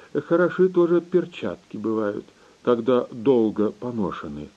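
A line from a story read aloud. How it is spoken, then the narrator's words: Sighing general. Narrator (Russian): вздохнул генерал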